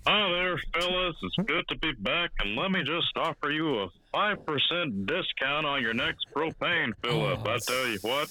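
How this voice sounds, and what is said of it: Hank Hill cartoon character voice. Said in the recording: “one of the best Hank Hill impersonators”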